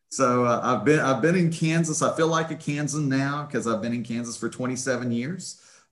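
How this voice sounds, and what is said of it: West Virginia accent. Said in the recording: “The accent, of course, is from West Virginia. ... I cannot shake that West Virginia accent.”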